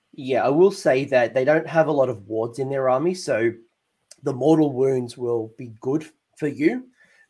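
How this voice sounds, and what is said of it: Voice going, hoarse. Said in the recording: “I'm losing my voice.”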